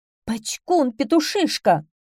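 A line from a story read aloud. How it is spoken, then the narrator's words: Angry shout. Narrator (Russian): закричала она сердито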